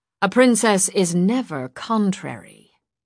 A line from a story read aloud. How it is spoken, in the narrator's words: she said coolly